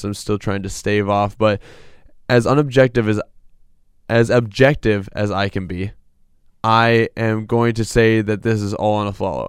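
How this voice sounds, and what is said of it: Voice sounds congested with a cold. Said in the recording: “the cold that you can hear in my voice.”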